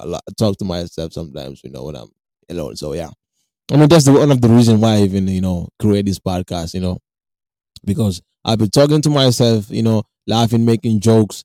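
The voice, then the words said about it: African accent. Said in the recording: “my boring African accent”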